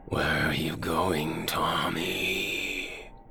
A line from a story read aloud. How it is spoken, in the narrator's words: The whispered voice of the shadows asked